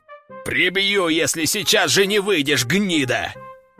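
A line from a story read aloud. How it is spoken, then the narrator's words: Boss growling. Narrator (Russian): зарычал начальник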